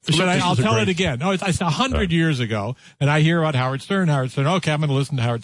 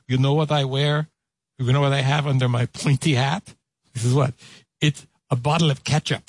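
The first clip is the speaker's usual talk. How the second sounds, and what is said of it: Imitates another person's voice. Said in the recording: “he's doing the Pope's voice ... he's doing the accent of the Pope”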